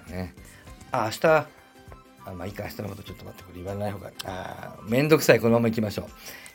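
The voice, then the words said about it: Hoarse voice. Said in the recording (Japanese): “声が枯れております。”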